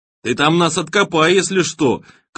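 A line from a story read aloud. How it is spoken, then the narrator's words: Shy, childlike shout. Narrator (Russian): крикнул с детским стеснением от дерзости Боря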